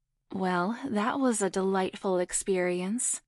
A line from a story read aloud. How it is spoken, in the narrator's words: Nadia purred